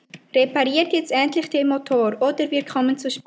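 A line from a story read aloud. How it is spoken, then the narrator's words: Said angrily. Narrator (German): Veronika sagte wütend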